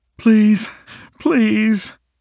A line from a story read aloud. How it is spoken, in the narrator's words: Landry pleaded